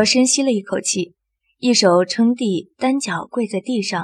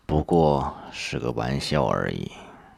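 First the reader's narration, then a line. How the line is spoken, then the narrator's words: Flat, indifferent. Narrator (Chinese): 吴叶淡淡道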